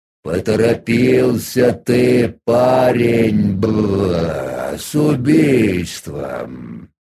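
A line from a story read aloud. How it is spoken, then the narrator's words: Creaky voice. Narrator (Russian): он проскрипел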